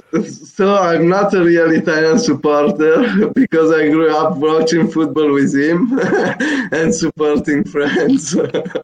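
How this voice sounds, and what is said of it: Italian accent. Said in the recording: “I, am born in Italy, as you can hear from my accent”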